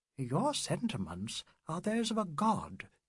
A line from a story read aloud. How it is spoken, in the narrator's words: she said quietly